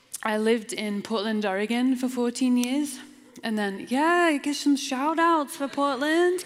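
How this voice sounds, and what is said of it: British accent. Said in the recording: “Some people think I'm South African. Some people think I'm from New Zealand. But I'm actually a Brit.”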